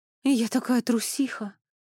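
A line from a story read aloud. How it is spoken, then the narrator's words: Sighing. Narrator (Russian): вздохнула Хильда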